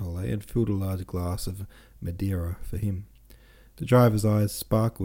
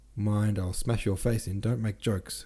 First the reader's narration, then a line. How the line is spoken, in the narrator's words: cried Anatole